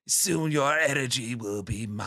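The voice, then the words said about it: Raspy imperfect Cell voice. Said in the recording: “That's a good imperfect Cell is what we're calling him ... Raspy.”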